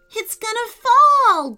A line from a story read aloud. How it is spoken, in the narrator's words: Jacob cried